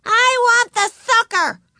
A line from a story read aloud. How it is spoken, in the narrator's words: screamed Ramona